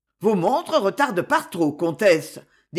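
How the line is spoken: Icy tone. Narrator (French): dit-il d'un ton glacé

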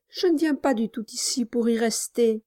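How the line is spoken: Timid. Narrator (French): répondit timidement Nelly

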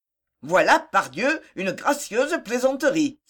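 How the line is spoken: Exclaimed. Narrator (French): s'écria le commissaire

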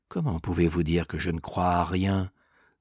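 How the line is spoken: Low voice. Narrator (French): lui répondit Mergy à voix basse

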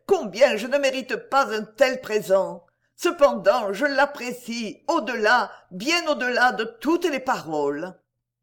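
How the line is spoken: Exclaimed. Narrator (French): s'écria-t-elle

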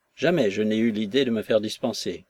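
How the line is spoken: Curt reply. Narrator (French): répondit sèchement Nekhludov

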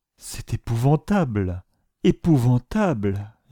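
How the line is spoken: Moaning. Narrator (French): gémissait-elle

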